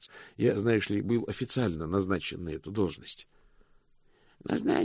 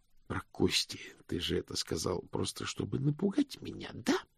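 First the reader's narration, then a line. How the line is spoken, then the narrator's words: Hissing. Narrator (Russian): прошипел мокрец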